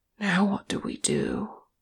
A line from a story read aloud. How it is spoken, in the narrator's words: said Ori in a hushed voice